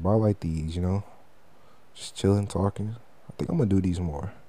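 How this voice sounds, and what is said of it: Relaxed bed voice, almost seductive. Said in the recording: “it might sound a little weird because I'm in my bed voice. So it might sound like I'm trying to seduce you.”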